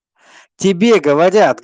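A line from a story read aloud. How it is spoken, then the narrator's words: Barked, tall man. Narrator (Russian): гаркнул высокий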